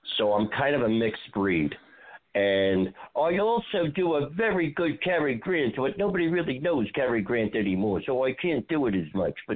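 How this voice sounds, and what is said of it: New York accent. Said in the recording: “Where are you from in New York? I mean, your accent is like there”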